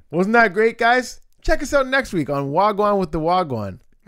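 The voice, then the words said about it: Upbeat music-video host voice. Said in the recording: “That's your DJ voice? ... That's my VJ voice, like introducing a music video on Much Music.”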